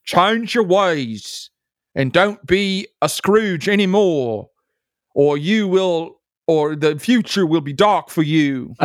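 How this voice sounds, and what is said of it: British accent, Jacob Marley impression. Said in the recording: “he talked to me like Jacob Marley from A Christmas Carol too ... He was British ... let me see if I can do my British accent.”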